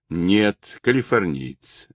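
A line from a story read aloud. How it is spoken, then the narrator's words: Plain. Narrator (Russian): ответил он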